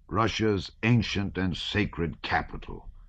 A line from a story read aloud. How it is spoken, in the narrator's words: he suddenly said, repeating Bennigsen's words in an angry voice